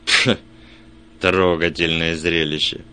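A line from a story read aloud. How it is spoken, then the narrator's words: Mocking snort. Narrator (Russian): фыркнул он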